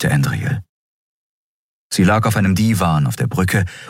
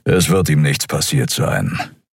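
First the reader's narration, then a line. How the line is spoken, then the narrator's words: Grumbling. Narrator (German): brummte Keru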